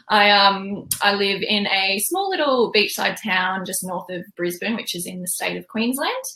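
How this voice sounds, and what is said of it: Australian accent. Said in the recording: “I live in Australia, if you can't tell by my accent.”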